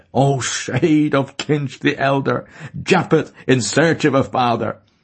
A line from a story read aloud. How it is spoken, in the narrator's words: bending in loose laughter, said to Stephen's ear